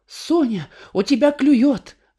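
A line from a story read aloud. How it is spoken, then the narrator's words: Squealed. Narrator (Russian): взвизгнула тетя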